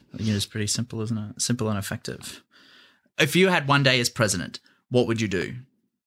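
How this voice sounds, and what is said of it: Australian accent. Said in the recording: “Australian, as you can tell by the yummy accent.”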